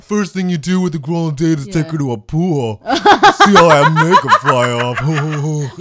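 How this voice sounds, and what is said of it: Imitates a stereotypical straight man's voice. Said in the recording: “your impression of Spike... That's my straight impression... it is spot on. It is spot on.”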